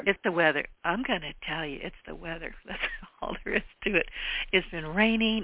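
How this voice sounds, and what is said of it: Hoarse, fading voice. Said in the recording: “I'm losing my voice again.”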